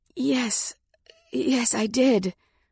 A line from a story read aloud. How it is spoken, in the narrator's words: gasped